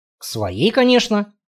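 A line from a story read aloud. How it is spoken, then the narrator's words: Grumbling mutter. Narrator (Russian): пробурчал он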